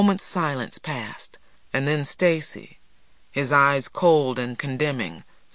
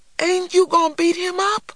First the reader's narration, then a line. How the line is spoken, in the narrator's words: cried a disappointed little man